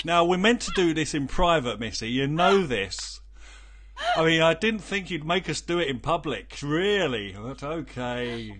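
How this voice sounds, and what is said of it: British accent. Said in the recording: “you said that with a British accent”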